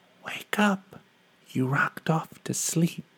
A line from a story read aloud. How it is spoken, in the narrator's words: whisper